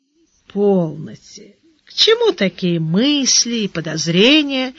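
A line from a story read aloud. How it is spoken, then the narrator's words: Gentle. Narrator (Russian): мягко сказал Гаудин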